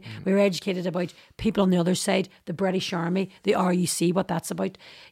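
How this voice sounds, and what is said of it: Northern Irish Derry accent. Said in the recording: “they immediately picked up, you know, on my accent, they couldn't understand me ... I'm from Northern Ireland, I'm from Derry ... this is the way I speak”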